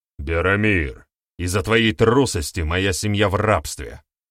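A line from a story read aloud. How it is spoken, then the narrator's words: Young man's angry bark. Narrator (Russian): Рявкнул парень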